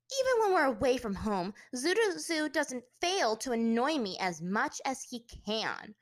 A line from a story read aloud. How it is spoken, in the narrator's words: Azula said with a snarl